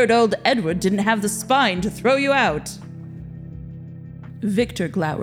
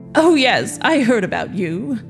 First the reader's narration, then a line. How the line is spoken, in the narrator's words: the other man chuckled